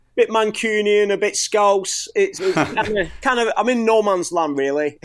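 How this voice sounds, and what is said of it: Strong North West England accent. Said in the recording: “accents will hear very strongly your North West England accent ... is it Scouse? ... It's Lancashire ... bit of Lancashire there”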